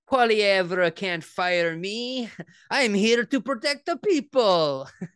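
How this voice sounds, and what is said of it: Cartoonish Wario-style character voice. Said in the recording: “doing a Wario impression?”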